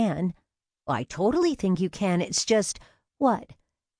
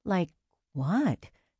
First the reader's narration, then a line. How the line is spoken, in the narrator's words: She whispered